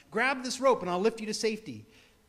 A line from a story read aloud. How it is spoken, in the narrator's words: the pilot shouted down